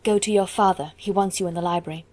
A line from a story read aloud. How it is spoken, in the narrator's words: said in a whisper